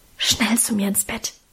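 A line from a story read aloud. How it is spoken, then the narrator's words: Whisper. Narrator (German): flüsterte sie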